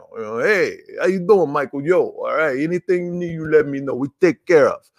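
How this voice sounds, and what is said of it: Mobster-style Tony Soprano impression. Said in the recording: “it feels very Tony Soprano ... I don't know if that's a good impression. Because it kind of went into my mom a little bit. The Asian voice came in”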